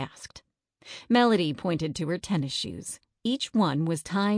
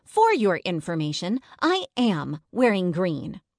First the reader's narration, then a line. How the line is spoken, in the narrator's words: Melody snapped